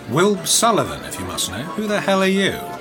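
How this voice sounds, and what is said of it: Posh English accent. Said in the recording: “Love the posh accent”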